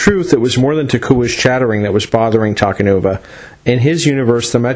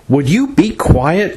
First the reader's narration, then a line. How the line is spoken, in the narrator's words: Takanuva snapped